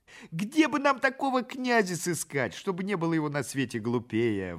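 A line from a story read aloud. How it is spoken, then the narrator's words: Pleading crowd. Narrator (Russian): взмолились головотяпы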